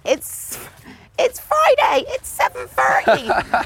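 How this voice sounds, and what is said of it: High-pitched Gloucestershire country accent. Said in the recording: “I was too high-pitched. ... my country accent came out because I'm from Cheltenham in Gloucestershire.”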